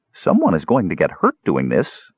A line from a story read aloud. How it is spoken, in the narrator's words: muttered Parian